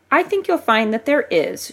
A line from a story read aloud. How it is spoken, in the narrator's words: she said sweetly